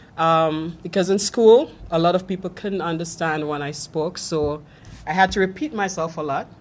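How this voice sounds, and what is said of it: Mild Trinidadian accent. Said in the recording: “I'm from Trinidad and Tobago ... I had to learn to modify my accent. I still have one, but it's not as pronounced.”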